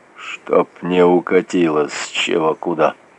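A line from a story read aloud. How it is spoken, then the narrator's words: Grim joke, to himself. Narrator (Russian): Мрачно пошутил он про себя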